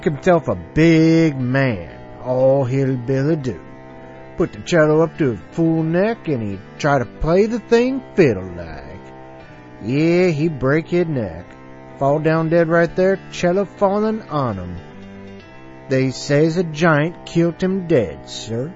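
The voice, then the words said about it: Deliberately bad put-on accent. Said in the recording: “in a really bad accent”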